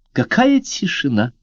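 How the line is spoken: Sudden warm exclamation. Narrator (Russian): Внезапно воскликнула она с мягкой улыбкой

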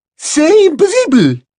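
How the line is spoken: Exclaimed. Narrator (Spanish): exclamó Madame Maxime

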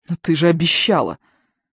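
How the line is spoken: Indignant shout. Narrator (Russian): возмущенно крикнул Бернхард

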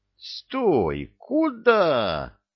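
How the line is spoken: Yelling again. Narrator (Russian): снова орал Стойло Хряков, обводя ошарашенными глазами гостиную

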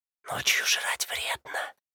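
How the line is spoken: Whisper. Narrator (Russian): прошептал я

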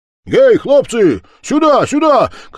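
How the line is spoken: Shouting. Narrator (Russian): кричал он

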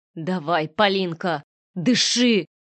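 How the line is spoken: Hoarse rasp. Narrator (Russian): хрипел я

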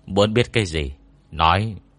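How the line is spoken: Cold interruption. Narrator (Vietnamese): Ngô Miễn lạnh lùng cắt ngang

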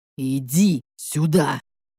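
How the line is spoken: Growled. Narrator (Russian): прорычал он

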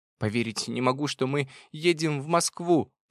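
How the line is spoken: Squeaky rat voice. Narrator (Russian): пропищал крыс

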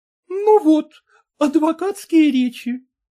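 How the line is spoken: Exclaimed. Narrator (Russian): воскликнула Саняша

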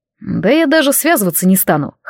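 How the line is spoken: Raven chuckling. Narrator (Russian): хохотнул ворон

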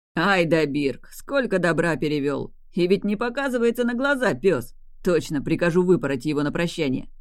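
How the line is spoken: Laughing good-natured promise. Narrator (Russian): Продолжая смеяться, беззлобно пообещал Адлар

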